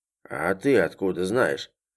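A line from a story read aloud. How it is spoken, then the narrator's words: Surprised. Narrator (Russian): удивился Егор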